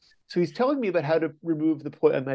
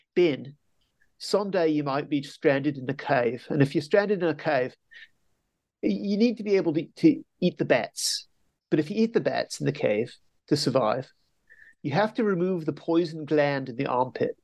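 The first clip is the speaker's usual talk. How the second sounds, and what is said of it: Poor put-on Australian accent. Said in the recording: “he has an Australian accent ... My accent is terrible”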